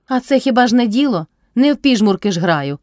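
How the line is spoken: Shout. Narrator (Ukrainian): крикнула й собі Мотря

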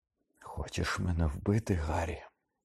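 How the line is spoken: Whisper. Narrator (Ukrainian): прошепотів він

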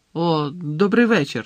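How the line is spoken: Dry mutter. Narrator (Ukrainian): сухо буркнув Гаррі

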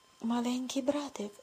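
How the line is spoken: Whisper. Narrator (Ukrainian): шепотіла вона

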